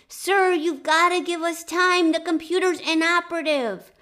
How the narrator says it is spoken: Kirk pleaded with Khan

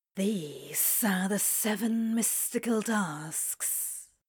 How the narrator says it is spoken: Crowley whispers theatrically

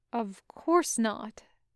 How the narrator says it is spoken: intones gravely

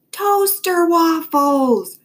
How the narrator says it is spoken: Dad yelled louder

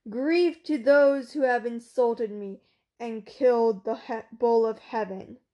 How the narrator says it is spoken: The goddess stood on Urk's walls and cried aloud

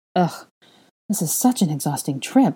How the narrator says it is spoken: Hermione groaned

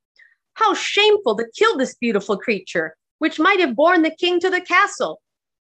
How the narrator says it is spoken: the other servants of the king, who were not on good terms with faithful John, exclaimed

